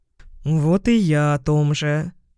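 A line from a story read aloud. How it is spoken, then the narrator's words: Grumbling cat. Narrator (Russian): пробурчал кот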